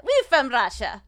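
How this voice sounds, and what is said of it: Bad mock Russian accent. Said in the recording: “that was a bad Russian accent.”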